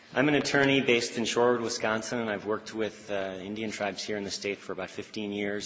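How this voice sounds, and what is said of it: Slightly hoarse voice. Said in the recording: “my voice is a little hoarse. I was at the Packer game yesterday and yelling quite a bit”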